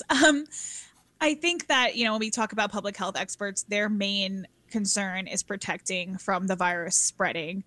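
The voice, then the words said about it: Hoarse, strained voice. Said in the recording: “I'm also losing my voice.”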